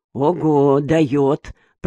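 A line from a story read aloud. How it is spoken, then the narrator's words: Muttered. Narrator (Russian): пробормотал он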